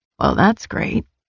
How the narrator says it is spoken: Nyctos muttered

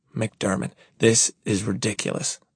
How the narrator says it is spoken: I whisper

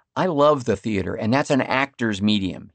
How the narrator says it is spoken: he said

